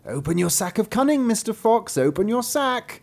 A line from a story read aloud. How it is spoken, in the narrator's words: cried the cat to him